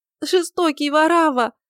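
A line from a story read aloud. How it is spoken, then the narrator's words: Sobbing. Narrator (Russian): говорила, всхлипывая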